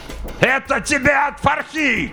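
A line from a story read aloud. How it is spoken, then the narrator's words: Exultant furious shout. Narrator (Russian): крикнул он с ликующей яростью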